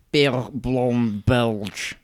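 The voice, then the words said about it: Bad put-on Belgian accent. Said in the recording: “which is my terrible Belgian accent.”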